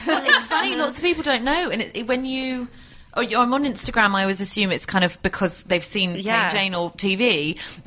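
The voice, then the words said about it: British accent. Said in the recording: “she's cute and British ... oh, your accent.”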